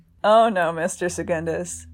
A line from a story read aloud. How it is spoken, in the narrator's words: Childermas said, a laugh forming at the corner of his mouth